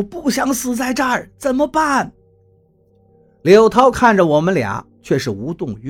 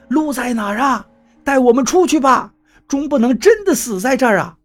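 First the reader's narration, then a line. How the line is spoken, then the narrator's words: Shouting in panic. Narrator (Chinese): 水还在上涨着，王八喊道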